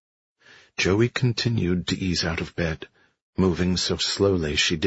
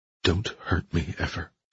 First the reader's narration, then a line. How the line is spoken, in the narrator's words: she said